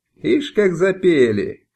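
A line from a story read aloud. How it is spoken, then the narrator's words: Loud guffaw. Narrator (Russian): захохотал Джалалия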